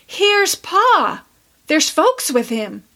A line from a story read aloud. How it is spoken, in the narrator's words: Roxy called out